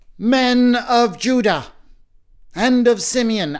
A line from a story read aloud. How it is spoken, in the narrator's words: Achsa cried